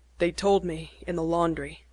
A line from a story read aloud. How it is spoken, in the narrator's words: he said harshly